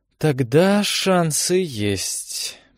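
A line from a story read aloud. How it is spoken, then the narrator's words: Drawling. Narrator (Russian): протянул Рен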